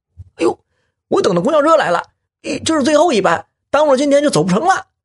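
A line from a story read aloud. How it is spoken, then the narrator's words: Shouting back while running. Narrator (Chinese): 一边跑啊，一边回头冲着申嘉义他们喊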